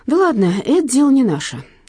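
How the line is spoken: Sighing. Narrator (Russian): вздохнул Василий Макарович

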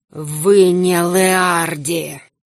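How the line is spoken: Hissed. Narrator (Russian): прошипел

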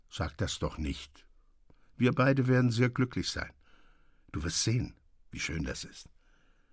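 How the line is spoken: Gentle, calm. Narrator (German): sagte sanft mit ruhiger Miene

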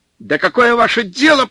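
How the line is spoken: Near shout. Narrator (Russian): почти закричал снабженец

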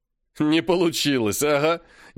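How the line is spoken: Snide. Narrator (Russian): ехидно сказал Постников

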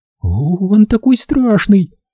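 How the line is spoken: Frightened whisper. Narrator (Russian): испуганно прошептала Шарон

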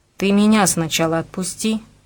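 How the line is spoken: Grumbling. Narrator (Russian): проворчал Борька

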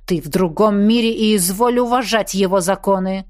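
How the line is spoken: Near growl. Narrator (Russian): почти прорычал тень

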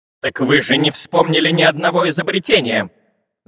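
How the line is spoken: Angry shout. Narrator (Russian): зло закричал на разбойника капитан марсианского корабля

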